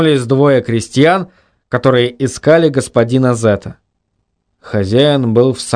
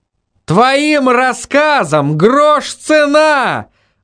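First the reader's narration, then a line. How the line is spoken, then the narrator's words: Judge's angry shout. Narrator (Russian): выкрикнул судья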